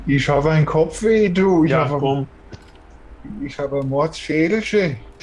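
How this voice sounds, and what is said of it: Deliberately bad put-on dialect. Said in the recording (German): “eigenwilliger Dialekt ... der schlechteste Dialekt sein, den wo ich jemals gesprochen habe”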